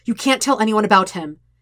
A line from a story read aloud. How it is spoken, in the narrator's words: he says sharply